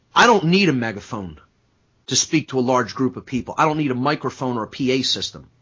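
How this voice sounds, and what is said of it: Slightly gruff, rough voice. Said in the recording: “My voice is actually still a little bit gruff from how loud I yelled last week.”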